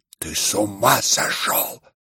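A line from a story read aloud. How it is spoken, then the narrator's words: Sudden whisper. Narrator (Russian): прошептал вдруг Птицын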